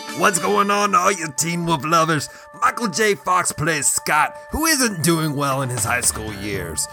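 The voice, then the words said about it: Gravelly radio DJ impression. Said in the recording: “doing your impression of Wolfman Jack”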